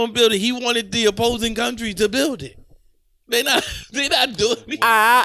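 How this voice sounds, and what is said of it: Usual voice. Nothing is said of it.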